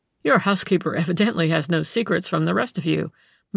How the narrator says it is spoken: Mueller remarked with a laugh

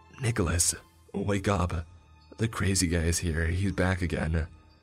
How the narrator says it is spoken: I whispered loudly

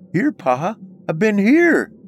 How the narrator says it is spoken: I cried out

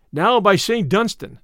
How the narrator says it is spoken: cried Little John

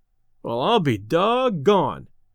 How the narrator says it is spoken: exclaimed Delaney

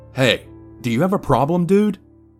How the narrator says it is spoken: yelled

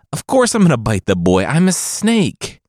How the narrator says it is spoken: the father pleaded

